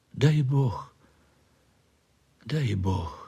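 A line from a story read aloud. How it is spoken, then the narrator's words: Whispered. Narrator (Russian): шептала она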